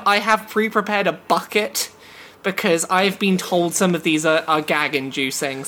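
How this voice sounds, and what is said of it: English accent. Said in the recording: “that's your English accent ... That is my English accent”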